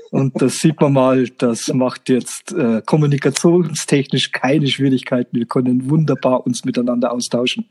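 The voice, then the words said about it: Franconian German dialect. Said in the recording (German): “unsere Dialekte sich nicht ganz gleichen ... dass ich kein HDSD sprechen kann ... Also ich bin in Franken beheimatet”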